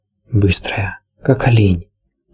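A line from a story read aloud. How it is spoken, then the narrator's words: Whisper. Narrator (Russian): прошептала она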